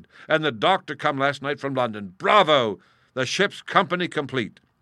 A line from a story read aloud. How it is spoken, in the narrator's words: cried